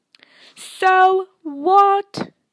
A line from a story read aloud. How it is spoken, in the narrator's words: Harry shouted